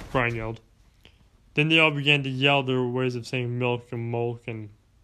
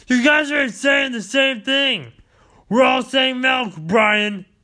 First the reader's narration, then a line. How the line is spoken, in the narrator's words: yelled Fox